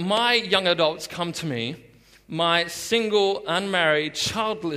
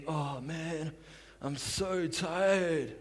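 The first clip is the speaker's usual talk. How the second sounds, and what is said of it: Sleepy, worn-out impersonation of others. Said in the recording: “They're not on drugs or anything. That's just my impersonation of them.”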